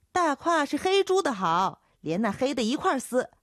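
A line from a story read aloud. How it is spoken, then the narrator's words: Young voice shouting back. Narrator (Chinese): 叫豆蔻的年少姚杰喊回去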